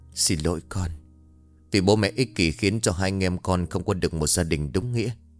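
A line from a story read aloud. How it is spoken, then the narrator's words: Moved whisper. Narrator (Vietnamese): ông Vương lại thêm phần xúc động, miệng gồm thì thầm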